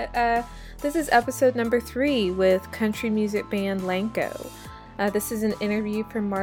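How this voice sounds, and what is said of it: Usual voice. Nothing is said of it.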